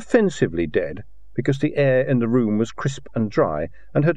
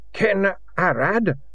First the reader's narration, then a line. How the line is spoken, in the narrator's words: he croaked